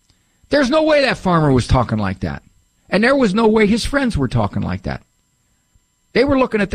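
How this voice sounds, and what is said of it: Usual voice. Nothing is said of it.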